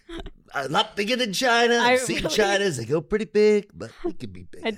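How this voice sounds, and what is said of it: Donald Trump impression. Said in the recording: “That was a pretty good Trump impression.”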